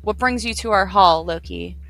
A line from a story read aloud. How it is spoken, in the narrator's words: he asked